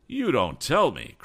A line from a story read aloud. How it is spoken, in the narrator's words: cried Mr